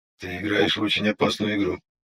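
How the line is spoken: Quiet. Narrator (Russian): негромко заявил Лис

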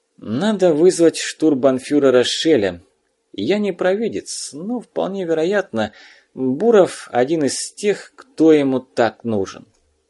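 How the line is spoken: Weary. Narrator (Russian): переводчик устало потер ладонями лицо и, обращаясь к обер-лейтенанту, сказал

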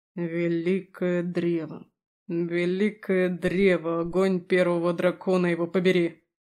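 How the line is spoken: Exasperated outburst. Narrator (Russian): Не выдержал Аласдер

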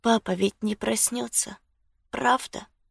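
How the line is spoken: Whisper. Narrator (Russian): прошептала Люси

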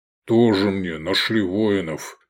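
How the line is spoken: Grumble. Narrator (Russian): пробурчал Гефестай

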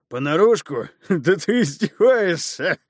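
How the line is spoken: Booming laughter, giant. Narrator (Russian): Гигант рассмеялся, пугая раскатами своего хохота

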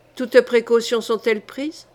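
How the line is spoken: Cold question. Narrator (French): demanda-t-elle froidement

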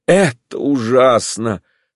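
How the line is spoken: Heavy sigh. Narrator (Russian): сказал Степан Аркадьевич, тяжело вздохнув

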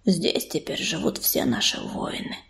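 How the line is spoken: Whisper in the ear. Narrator (Russian): прошептал ей на ухо Дым

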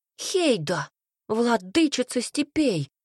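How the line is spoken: Exclamation. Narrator (Russian): воскликнул Цинта

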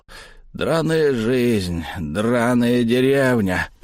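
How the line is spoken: Growled. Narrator (Russian): прорычал

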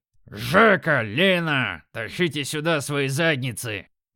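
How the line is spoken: Thundering. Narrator (Russian): Прогремел

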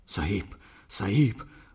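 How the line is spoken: Hoarse, panting. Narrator (Russian): прохрипел сингалезец и, тяжело дыша

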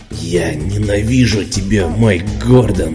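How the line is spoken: Growled. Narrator (Russian): прорычал я

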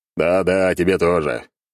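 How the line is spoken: Chuckle. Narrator (Russian): Хохотнув

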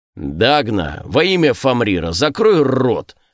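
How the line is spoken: Barking shout. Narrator (Russian): рявкнул Скорни

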